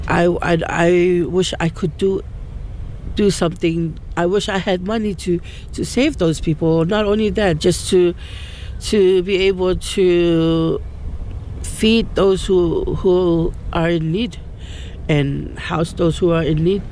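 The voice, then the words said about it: Teary, emotional voice. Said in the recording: “she was emotional as she spoke ... That's why I'm a bit teary”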